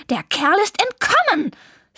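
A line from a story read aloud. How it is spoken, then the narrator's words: Reproachful hiss. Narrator (German): fauchte Zelda Vivaldi vorwurfsvoll an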